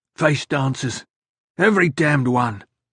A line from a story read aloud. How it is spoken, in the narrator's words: Idaho panted